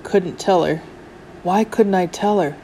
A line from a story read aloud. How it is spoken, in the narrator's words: He muttered